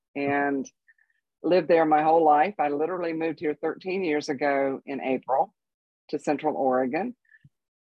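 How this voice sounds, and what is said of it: North Carolina accent. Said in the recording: “I'm from North Carolina, as I'm sure you picked up on the accent.”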